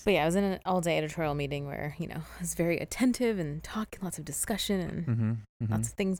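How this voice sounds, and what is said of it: Slightly hoarse voice. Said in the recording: “my voice, I'm still a little hoarse today ... Still a little hoarse.”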